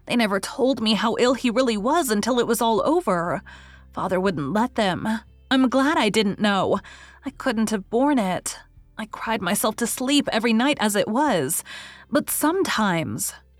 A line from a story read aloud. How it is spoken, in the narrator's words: concluded Rilla bitterly